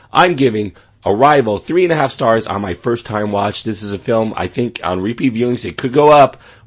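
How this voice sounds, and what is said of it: Strained, fading voice. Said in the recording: “I am losing my voice.”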